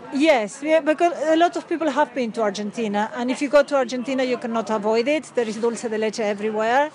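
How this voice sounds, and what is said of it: Argentinian accent. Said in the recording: “Loving your accent. ... I come from Argentina.”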